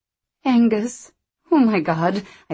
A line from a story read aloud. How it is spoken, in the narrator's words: I said in a broken voice